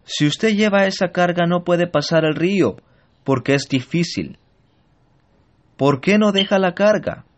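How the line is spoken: Man shouting. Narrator (Spanish): Este hombre le grita

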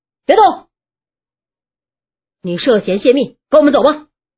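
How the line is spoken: Alert roar. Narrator (Chinese): 对方有人警觉了，吼着

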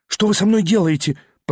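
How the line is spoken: Stammered. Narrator (Russian): пролепетал он

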